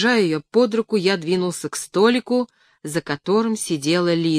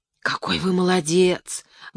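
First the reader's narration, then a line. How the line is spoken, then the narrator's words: Admiring whisper. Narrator (Russian): восхищенно шепнула Леночка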